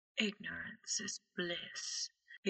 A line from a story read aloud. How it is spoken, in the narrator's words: he whispers in Harry's ear